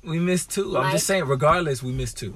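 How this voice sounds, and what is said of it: Tired-sounding voice. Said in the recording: “I know I sound tired right now.”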